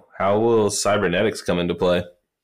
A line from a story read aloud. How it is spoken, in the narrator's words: Vlad chuckles